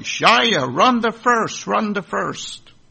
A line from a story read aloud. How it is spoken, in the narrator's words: Everyone started yelling